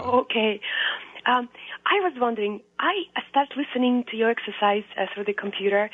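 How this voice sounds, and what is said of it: Weakened, cold-affected voice. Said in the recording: “I'm recovering from cold and my voice is not all the way”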